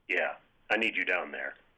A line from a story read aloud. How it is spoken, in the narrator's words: sighed